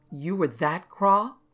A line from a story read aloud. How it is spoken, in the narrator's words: exclaimed